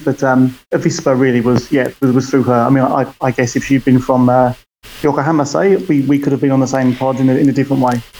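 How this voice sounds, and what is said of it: British accent. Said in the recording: “you can probably hear from my accent. I'm originally from the UK”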